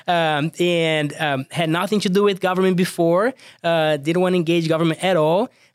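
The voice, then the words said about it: Thick Brazilian accent. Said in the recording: “I'm from Brazil, as you can tell, I have a thick accent”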